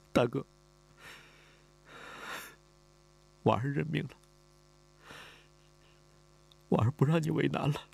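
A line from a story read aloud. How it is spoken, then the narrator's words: Crying. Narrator (Chinese): 李婉儿哭了，他哭着说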